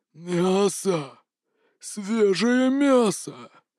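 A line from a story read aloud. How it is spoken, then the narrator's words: Hungry creature's hoarse rasp. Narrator (Russian): захрипело это нечто, когда увидело Дмитрия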